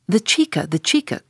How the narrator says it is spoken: cried Don Pedro

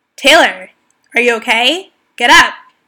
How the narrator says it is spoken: my coach yelled and said

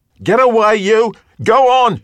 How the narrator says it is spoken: she hollered, as if he were just a dog and she were just a woman, a housekeeper protecting a flock of chickens

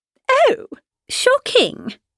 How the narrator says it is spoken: cried Miss Bingley

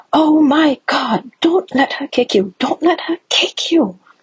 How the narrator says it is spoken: a woman a couple seats down from us on the train jumps up and shouts at me

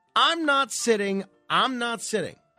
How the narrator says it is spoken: he yells

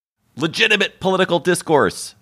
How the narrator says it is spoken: shouted the mugger

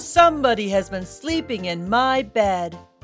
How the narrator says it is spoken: In his great big voice, he boomed

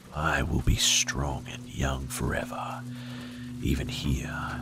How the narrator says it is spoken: he rasped

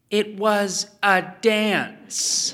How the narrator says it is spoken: she told Ethan, pronouncing the word slowly and clearly, as if for the benefit of an imbecile

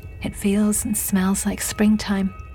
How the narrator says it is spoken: she sighed

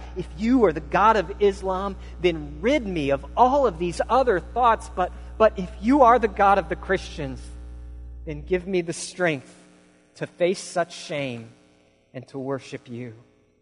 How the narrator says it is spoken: He cried out

